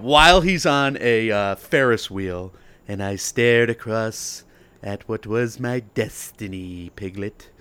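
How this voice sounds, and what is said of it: Winnie the Pooh-style narration impression. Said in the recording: “why is Tom Hanks narrating this trailer like he's Winnie the Pooh? ... Do your impression of the trailer.”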